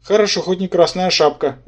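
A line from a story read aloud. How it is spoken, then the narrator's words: Satisfied snort. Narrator (Russian): удовлетворенно хмыкнул Рабан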